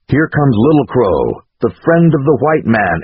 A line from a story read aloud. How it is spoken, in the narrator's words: exclaimed a warrior